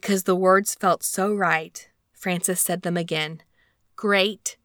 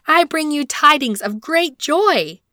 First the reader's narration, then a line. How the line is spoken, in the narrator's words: she shouted